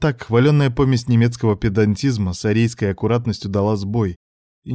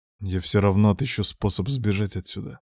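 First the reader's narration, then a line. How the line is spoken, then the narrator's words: Quiet speech. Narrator (Russian): тихо проговорил Девитаев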